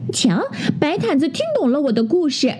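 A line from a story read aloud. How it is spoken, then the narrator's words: Proud, smug. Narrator (Chinese): 当当就会得意地说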